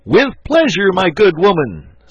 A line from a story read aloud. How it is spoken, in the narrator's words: said the archbishop, stooping to shout in her ear